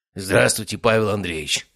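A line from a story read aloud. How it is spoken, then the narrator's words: Hoarse wheeze. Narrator (Russian): прохрипел он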